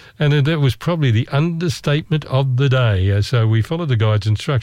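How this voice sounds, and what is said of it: Usual voice. Nothing is said of it.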